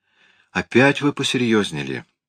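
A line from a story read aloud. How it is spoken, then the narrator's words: Gentle reproach. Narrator (Russian): мягко упрекнула его Ева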